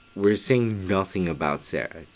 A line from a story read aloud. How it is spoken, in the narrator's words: Just Nicole said